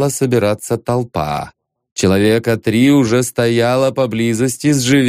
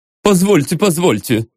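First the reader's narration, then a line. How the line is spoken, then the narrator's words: Babbling. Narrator (Russian): лепетал Ипполит Матвеевич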